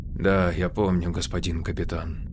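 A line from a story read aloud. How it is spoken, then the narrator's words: Quiet. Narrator (Russian): тихо сказала Лио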